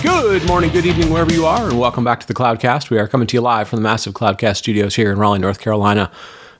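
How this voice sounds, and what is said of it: Hoarse, congested voice. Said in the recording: “I probably sound a little bit hoarse ... sort of a yellow fog that floats in for a few weeks and kind of sniffs us up and gets us all kind of congested ... I will do the best I can to not sound too congested”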